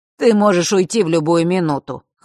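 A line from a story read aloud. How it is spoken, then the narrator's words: Dismissive snort. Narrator (Russian): хмыкнул Фэш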